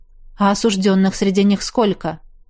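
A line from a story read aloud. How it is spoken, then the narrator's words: Skeptical snort. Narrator (Russian): Ашияр хмыкнул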